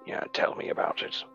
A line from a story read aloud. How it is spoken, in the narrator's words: Daedalus kind of under his breath scoff